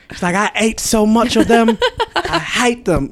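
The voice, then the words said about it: Imitated British accent, deliberately bad. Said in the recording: “My terrible British accent”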